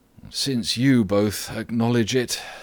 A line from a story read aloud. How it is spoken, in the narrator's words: sighed Socrates